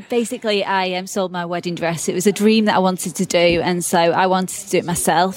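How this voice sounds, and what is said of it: British English accent. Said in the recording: “out of Britain? ... Cheshire, England ... the accent”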